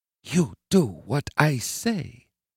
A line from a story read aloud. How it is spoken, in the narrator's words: Hillary whispered in his ear